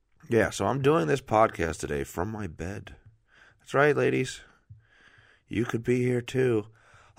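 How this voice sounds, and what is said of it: Slightly raw, sick-sounding voice. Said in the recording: “throat's a little raw”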